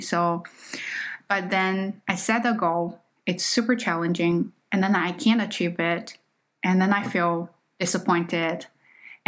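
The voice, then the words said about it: Chinese-accented English. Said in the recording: “my Chinese accent ... you still have accent”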